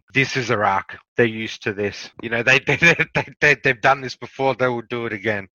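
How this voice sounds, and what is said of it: Speaks with a noticeable accent. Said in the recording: “People like to hear your accent”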